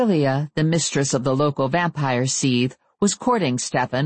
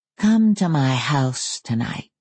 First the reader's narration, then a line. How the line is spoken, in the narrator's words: he purred